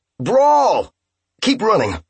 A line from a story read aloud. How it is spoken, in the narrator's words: someone yell